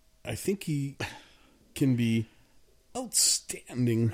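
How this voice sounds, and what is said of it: Weak Christopher Walken impression. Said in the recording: “that imitation is, it's not even close. But it was a good effort.”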